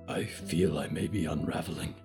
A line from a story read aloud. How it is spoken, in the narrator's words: Diggory whispered